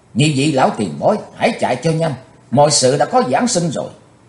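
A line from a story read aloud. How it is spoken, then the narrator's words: Loud urgent shout. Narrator (Vietnamese): Chí Tôn quát to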